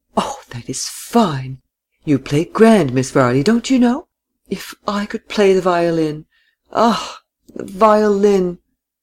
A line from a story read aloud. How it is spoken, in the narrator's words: Miss Seifert exclaimed continually